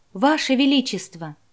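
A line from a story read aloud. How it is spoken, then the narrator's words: Exclaiming beautiful woman. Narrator (Russian): воскликнула красавица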